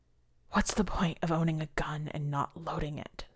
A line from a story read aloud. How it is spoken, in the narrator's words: Sokolai asked unsteadily